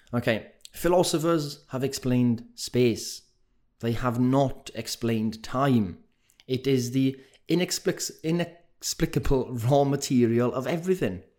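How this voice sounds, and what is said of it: Thick Welsh accent. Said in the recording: “I wish I could do with a posh English accent ... but I can't ... You've got the thick Welsh accent”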